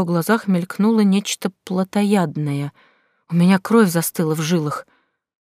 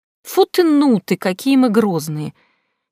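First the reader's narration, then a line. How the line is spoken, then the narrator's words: Purring voice. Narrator (Russian): вампир проговорил мурлыкающим голосом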